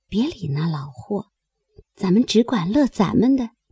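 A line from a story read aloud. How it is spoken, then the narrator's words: Quiet muttering. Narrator (Chinese): 悄悄的咕哝说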